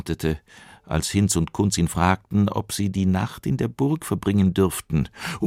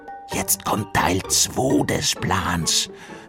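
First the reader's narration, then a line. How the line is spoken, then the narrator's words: Whisper. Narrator (German): flüsterte Hinz Kunz zu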